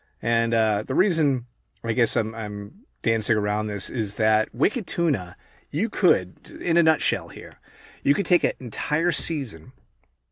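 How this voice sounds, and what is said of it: New England accent. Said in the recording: “I'm actually from New England ... you sure do sound funny. That's a funny accent. You sound like Mark Wahlberg. Oh, you sound like Ben Affleck”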